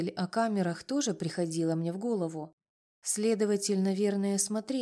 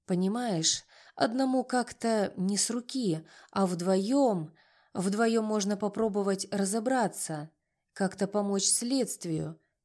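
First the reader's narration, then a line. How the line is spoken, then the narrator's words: Hesitant. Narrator (Russian): неуверенно закончил он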